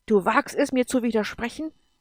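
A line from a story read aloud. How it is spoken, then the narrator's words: Angry creature. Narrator (German): sagte das Wesen im Sternenkreis zornig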